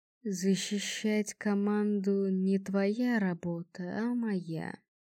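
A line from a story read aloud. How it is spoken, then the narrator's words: Calm legionary reminder. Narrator (Russian): спокойно напомнил легионер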